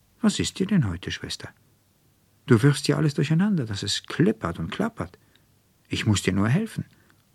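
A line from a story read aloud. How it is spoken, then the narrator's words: Serious, calm. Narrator (German): Fränzchen ganz ernsthaft und ruhig sagte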